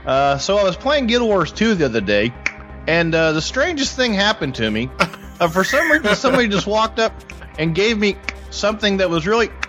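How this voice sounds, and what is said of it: Impression of another podcaster. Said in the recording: “my Hardly Dan impression”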